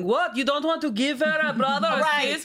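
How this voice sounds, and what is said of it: Put-on Armenian accent. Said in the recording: “What accent ... Was that? ... That's Armenian.”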